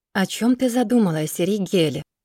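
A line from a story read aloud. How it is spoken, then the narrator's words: Soft friendly voice. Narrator (Russian): Ее голос звучит мягко, дружелюбно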